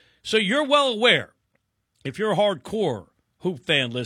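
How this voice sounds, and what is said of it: Usual voice. Nothing is said of it.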